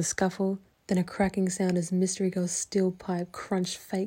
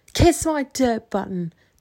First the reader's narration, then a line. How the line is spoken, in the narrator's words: Mystery Girl yell